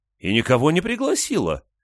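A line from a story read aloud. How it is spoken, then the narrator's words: Exclamation. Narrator (Russian): воскликнула большая Барбара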